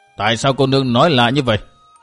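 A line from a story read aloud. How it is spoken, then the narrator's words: Cold question. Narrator (Vietnamese): Lão đạo sĩ bên tả lạnh lùng hỏi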